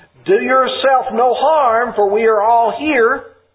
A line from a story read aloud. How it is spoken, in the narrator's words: Paul called out with a loud voice, saying